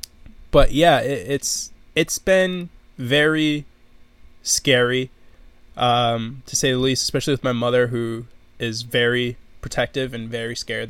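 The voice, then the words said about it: Slightly nasal, congested voice. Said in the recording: “You can kind of hear my voice is a bit nasally”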